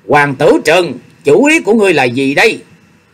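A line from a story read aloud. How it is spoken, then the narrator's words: Loud angry shout. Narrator (Vietnamese): lớn tiếng quát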